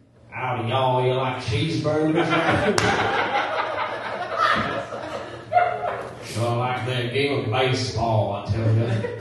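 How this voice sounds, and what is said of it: Put-on Southern American accent. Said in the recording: “American accent impression ... Do an American accent ... Texas, kind of? ... It's somewhere in the south. Yeah, it's Georgia.”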